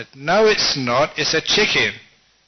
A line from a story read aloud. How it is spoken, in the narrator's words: raising his voice